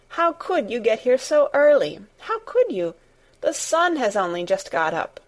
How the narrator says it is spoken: she cried out

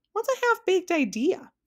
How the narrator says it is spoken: asked Milo again

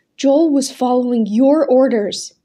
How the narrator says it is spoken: shouted

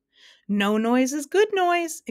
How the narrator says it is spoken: exclaimed happily

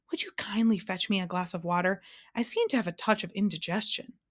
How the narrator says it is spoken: with the most distressed look on his face, he turned to Milo and gasped

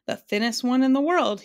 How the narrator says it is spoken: he replied brightly

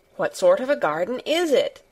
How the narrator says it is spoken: Colin persisted eagerly

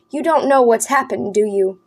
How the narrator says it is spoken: Daniel asked

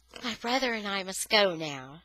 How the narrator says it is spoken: said gently

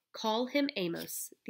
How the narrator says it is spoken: the auctioneer laughed harshly

